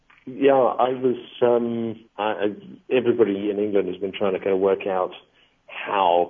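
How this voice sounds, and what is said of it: English accent. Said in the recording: “I'm guessing from your accent that you are an English national.”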